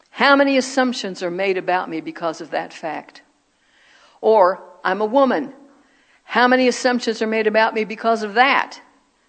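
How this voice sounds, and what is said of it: American accent. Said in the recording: “I'm American. Duh. Y'all know that by my accent,”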